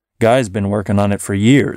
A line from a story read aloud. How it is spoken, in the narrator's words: said the barnacle